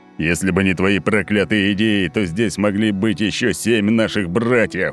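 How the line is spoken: Barking shout. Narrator (Russian): рявкнул Олимпий

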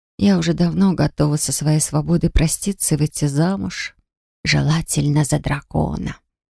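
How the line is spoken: Envious sigh, very quiet. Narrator (Russian): Завистливо вздохнула и произнесла тихо-тихо

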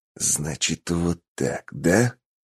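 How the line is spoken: Hiss. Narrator (Russian): прошипел Тапок

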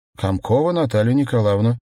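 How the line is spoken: Loud woman's voice. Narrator (Russian): громко произнесла женщина

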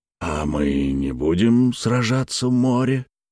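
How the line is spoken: Growled. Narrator (Russian): прорычал Букаяк

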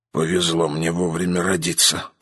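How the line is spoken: Muttering. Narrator (Russian): пробормотал профессор

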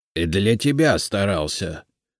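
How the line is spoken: Grumbling. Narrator (Russian): проворчал Игнат

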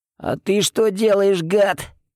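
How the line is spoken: Hoarse rasp. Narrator (Russian): прохрипел я

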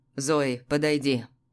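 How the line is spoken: Dry. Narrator (Russian): сказал он сухо

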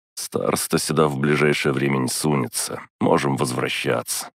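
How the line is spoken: Plain. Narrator (Russian): ответил я

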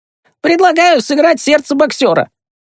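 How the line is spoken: Exclamation. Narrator (Russian): воскликнул Птицын

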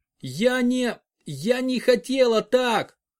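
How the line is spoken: Shout. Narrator (Russian): крикнула она мне в спину

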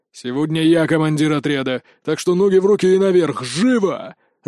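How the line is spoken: Growling soldier. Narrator (Russian): рыкнул уродливый солдат

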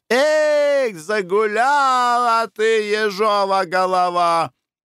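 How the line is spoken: Delighted squeal. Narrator (Russian): Восторженно взвизгивает кто-то со двора и радостно взвизгивает

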